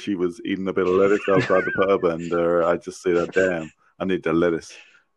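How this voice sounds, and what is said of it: Smooth, confident crooner impression. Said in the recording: “I've never heard you sound so smooth. It's quite impressive. ... very confident. ... my Elvis Presley impersonation.”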